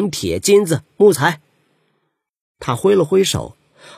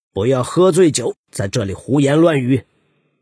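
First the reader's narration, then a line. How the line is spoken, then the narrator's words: Stern rebuke. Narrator (Chinese): 折了面厉声制止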